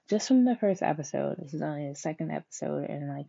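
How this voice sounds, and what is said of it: Nasal congested voice. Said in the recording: “forgive my voice too, because I have like a little nasal thing going on”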